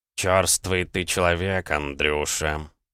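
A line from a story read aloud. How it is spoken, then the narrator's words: Grumbling cat. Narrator (Russian): пробурчал кот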